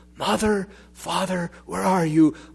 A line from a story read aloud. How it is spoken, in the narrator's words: A lost child, panics, does not whisper